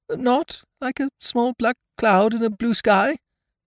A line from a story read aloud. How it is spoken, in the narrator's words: said Pooh anxiously